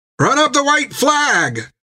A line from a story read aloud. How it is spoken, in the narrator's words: cried some